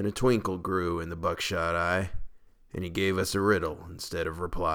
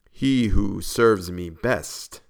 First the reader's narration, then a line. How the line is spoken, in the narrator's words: said he